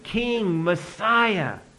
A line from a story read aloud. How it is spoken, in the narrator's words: cried out